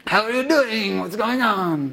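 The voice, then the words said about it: Mixed Armenian-French comic character accent. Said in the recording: “the rabbit would talk in kind of a Armenian meets French meets I can't do an accent sort of accent”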